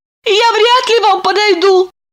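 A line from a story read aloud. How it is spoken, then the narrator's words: Frightened timid babble. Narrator (Russian): пролепетала, бледнее, с ужасом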